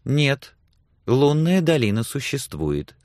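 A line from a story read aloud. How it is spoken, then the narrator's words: Calm objection. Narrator (Russian): спокойно возразила Сексон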